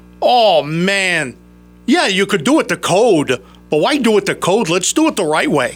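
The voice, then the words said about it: Imitates another person's voice. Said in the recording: “my Holmes on Homes impression”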